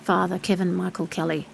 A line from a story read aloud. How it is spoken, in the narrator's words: he muttered finally